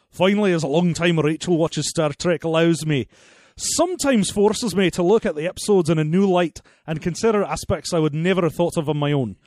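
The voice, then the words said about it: Put-on Scottish accent. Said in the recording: “I'm going to finish this off in a different accent. ... I want Scottish, please.”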